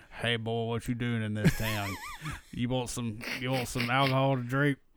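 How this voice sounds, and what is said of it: Put-on Southern US accent. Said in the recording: “this accent make it from the southern United States”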